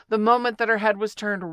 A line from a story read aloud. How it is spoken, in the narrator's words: Rabbit said in a loud voice